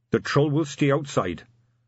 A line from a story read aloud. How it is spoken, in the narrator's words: said the figure flatly